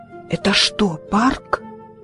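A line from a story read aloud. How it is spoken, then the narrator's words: Whispering. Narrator (Russian): Фред шептал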